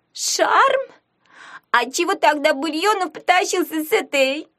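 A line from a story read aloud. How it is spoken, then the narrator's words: Shouted. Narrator (Russian): крикнула Пипа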